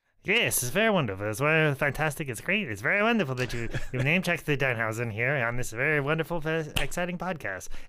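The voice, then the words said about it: Imitates another person's voice. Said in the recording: “Was that a bad impression? ... that was much better than mine.”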